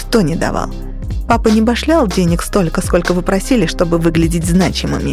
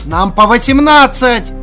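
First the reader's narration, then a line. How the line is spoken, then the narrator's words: Yell. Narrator (Russian): заорал Тупой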